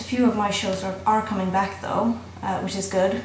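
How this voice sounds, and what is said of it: Flawed put-on Irish accent. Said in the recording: “Sorry about the flawed so-called accent. It's a bit ridiculous, really. ... Swedish chick with an Irish accent.”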